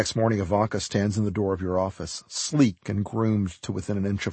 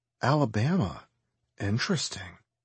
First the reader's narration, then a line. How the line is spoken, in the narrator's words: he wanders away, whispering